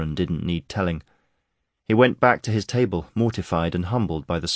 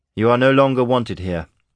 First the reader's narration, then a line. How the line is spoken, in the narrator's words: Harrod told him firmly